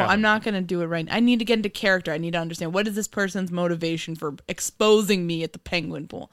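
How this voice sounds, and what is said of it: Usual voice. Nothing is said of it.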